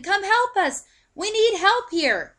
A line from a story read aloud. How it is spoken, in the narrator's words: Simon called out to the other fishermen